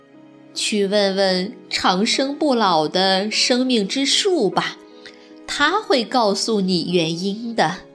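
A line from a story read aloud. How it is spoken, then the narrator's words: Smiling grandfather. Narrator (Chinese): 爷爷笑眯眯地回答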